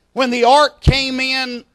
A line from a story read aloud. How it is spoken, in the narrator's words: Israel shouted